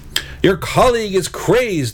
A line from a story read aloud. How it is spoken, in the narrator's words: the Red Knight shouted to Baglin